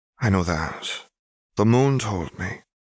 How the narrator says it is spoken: In answer to her head of house, she said softly

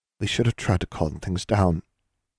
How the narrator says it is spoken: Anna mumbled in a small voice, still trembling

